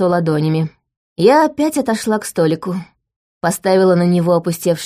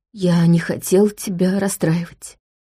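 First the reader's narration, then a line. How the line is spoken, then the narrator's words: Muffled whisper. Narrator (Russian): глухо прошептал Чарльз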